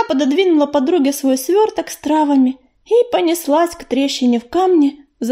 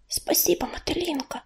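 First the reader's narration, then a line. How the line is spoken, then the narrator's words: Whisper. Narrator (Russian): шепнула Листвечка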